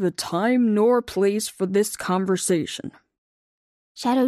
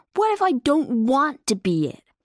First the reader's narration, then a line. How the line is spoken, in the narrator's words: Lightning blurted out